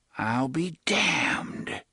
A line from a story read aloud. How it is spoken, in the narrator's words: Jonas whispered